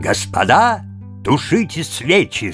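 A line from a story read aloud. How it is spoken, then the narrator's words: Loud resonant shout. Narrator (Russian): закричал друг дербский студент так приемисто и громко, как только можно было крикнуть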